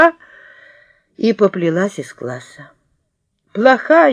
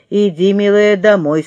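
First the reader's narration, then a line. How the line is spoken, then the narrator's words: Plain. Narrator (Russian): сказала тетя Нюра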